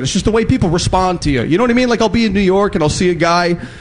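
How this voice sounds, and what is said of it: Chicago accent. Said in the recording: “Everyone keeps making fun of my Chicago accent out there.”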